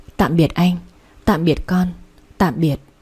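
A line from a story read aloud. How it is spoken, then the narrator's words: Barely audible murmur. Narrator (Vietnamese): miệng khẽ mấp máy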